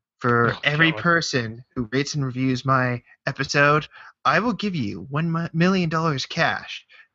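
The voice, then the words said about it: Imitates another person's voice. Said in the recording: “I'm going to impersonate Leafy's here”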